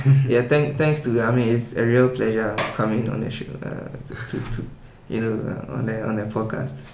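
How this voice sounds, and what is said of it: English with a different accent. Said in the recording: “your English is a little bit different. Obviously you have a different accent.”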